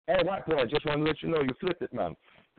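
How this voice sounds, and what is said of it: Put-on Jamaican accent. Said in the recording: “that was my Jamaican impression”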